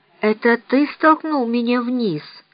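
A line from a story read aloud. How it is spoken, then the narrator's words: Weak voice. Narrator (Russian): слабым голосом проговорил Том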